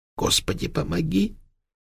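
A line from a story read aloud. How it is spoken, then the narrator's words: Barely audible whisper. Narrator (Russian): еле слышно прошептал Николай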